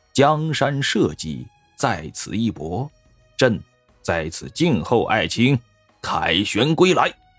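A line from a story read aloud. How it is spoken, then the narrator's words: Low, earnest instruction. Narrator (Chinese): 昭宗皇帝 低声嘱咐道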